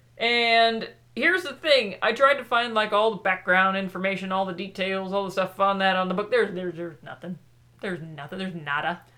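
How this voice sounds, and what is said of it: Put-on Southern US accent. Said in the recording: “I don't know how this book has all of a sudden given you a southern accent”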